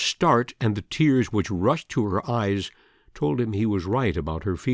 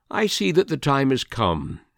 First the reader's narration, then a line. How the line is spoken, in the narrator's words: said